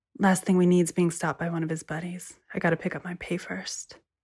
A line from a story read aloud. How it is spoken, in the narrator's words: she said quietly